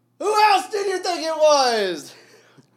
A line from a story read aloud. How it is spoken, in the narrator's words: He shouted with all his might in a ringing, happy voice